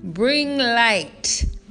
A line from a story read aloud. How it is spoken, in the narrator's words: in his thunderous voice